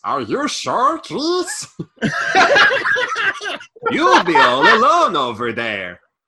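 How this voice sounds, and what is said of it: Exaggerated mock Swedish accent. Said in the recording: “I don't know what this accent is. It's gone mad. ... She's gone Swedish. ... Swedish. ... Like Swedish chef from the Muppets.”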